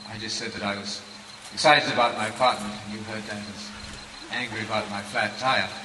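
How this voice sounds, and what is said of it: British English accent. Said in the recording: “I speak English with a British accent”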